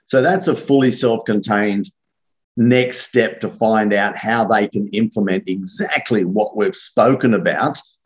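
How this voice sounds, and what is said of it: Australian accent. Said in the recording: “Australian accent is so much fun”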